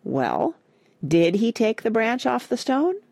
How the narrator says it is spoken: his fishing pole said, in a curious tone

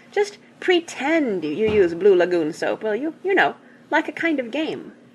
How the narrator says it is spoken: they pleaded

